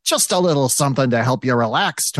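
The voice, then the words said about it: Put-on character voice. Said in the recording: “I got to do a Tony voice.”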